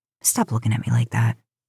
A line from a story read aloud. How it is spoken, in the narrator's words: Dean mutters